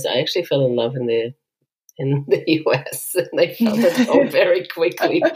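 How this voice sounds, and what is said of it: Israeli-accented English. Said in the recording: “I'm also very Israeli, as you can hear from my accent”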